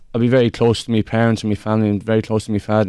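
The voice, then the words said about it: Emotional, choked-up speaking voice. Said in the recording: “you're getting a little emotional here”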